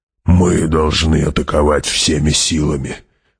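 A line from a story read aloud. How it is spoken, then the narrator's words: Hoarse. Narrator (Russian): хрипло сказал барон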